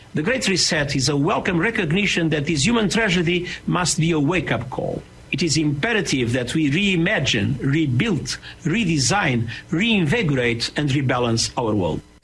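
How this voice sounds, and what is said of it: German Eastern European accent. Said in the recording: “With a nice German, Eastern European, totalitarian accent.”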